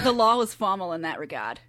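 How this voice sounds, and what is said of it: Attempted Boston accent. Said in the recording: “the way you can get into a Boston accent ... You're actually not that far off.”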